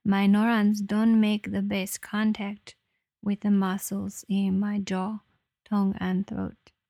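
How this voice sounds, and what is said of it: Impaired speech with an odd accent. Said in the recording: “As you can hear, my voice has not healed completely yet in the realm of speech. Sometimes, like now, I have an interesting accent ... dysarthria kicks in”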